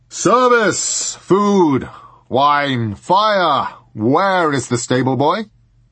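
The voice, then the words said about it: Deep booming voice. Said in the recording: “a deep voice boomed”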